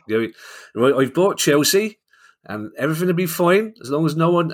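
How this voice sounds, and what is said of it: Bad put-on regional English accent. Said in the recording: “I know it's a terrible accent ... apologies to everybody from Gloucester or Norwich or wherever that accent was meant to be. classic Londoner attempting to speak the way that other people apparently do speak”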